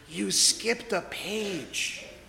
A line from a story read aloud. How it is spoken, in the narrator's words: whispered